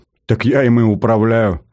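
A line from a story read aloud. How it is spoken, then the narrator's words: Loud laughter. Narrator (Russian): захохотал Саркис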